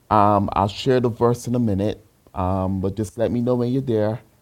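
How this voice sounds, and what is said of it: Slight Barbadian accent. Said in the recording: “a slight accent, that's because my mom is from Barbados, and that's where I was raised”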